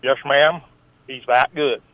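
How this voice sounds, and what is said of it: Deep Southern accent. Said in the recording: “deep, raw Southern accent”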